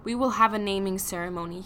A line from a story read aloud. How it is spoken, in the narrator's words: he said